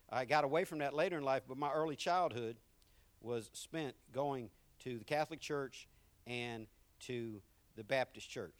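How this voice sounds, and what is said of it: Southern American accent. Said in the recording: “people want to know about my accent everywhere I go. Where are you from? Man, you sound so Southern ... where you get that country”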